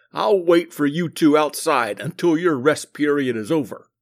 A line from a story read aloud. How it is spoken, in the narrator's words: he growled